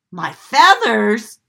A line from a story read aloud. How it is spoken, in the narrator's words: cried Simon